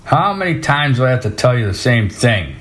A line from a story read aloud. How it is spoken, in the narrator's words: snapped